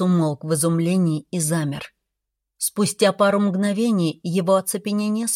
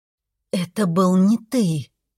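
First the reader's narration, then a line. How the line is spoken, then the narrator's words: Through gritted teeth. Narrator (Russian): процедила я сквозь зубы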